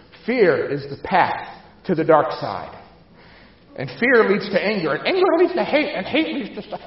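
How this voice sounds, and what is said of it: Weak Yoda impression. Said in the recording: “I can't do a great Yoda impersonation.”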